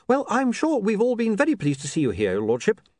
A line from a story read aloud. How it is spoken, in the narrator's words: said William brightly